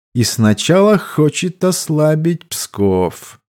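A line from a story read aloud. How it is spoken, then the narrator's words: Thoughtful. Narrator (Russian): задумчиво произнес кардинал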